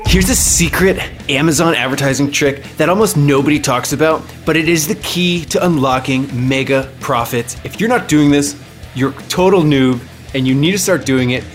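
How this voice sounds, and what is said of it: Hyped online guru sales voice. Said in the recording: “going to do my best guru voice.”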